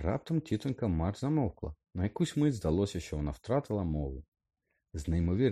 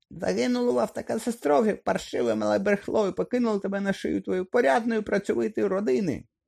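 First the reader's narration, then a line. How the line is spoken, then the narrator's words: Furious shrieking woman. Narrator (Ukrainian): Розлючено заверещала тітонька Марш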